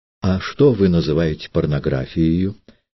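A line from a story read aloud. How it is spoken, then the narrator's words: Plain question. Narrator (Russian): спросил Триродов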